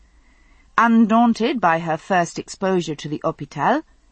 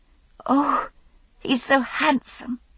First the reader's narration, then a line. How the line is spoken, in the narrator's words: she enthused, her stammer entirely forgotten